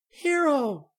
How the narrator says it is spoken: she cried in relief

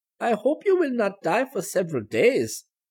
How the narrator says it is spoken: one lady said to the child with a sweet smile

